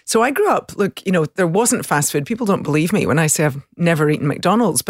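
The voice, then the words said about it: Soft rural Scottish accent. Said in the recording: “I grew up in the country, south of Glasgow ... people are always surprised by my accent, but the country accent tends to be a little softer”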